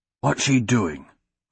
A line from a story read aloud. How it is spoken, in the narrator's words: Royce whispered to Hadrian